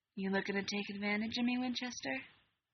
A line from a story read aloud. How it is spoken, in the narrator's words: Alec purred, letting every ounce of heat he'd been fighting against show in his voice